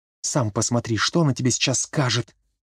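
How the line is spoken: Whispered reply. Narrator (Russian): шепотом ответила

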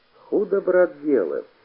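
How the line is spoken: Sad field spirit. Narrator (Russian): печально сказал полевой

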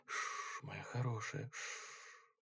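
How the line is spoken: Soothing whisper. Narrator (Russian): Карен приговаривая шепотом

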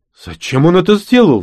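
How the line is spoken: Exclaimed. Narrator (Russian): воскликнул Димка

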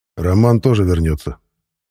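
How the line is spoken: Dry, commanding. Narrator (Russian): распорядился сухим тоном

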